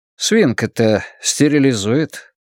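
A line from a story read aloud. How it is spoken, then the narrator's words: Dry objection. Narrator (Russian): сухо возразил Глен Бейтман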